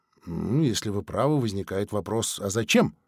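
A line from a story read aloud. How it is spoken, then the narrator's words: Grumbled. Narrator (Russian): Сергей буркнул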